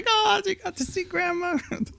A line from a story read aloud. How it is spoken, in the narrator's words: she cries like